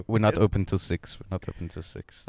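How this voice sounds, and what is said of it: Imitates another person's accent. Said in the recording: “That was his accent. I hit it on the head.”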